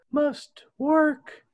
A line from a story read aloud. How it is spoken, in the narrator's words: she murmurs